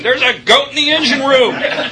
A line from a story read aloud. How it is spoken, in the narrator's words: he came back yelling